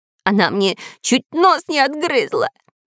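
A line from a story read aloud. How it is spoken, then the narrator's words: Nasal whimpering. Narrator (Russian): держась за нос, хныкал шпион Дырка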